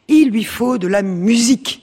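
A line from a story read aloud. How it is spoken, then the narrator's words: Plain. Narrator (French): dit la mère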